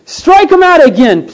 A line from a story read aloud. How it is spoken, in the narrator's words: pleaded the fans